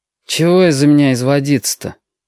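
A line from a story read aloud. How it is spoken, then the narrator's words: Grumbled mutter. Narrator (Russian): пробурчал он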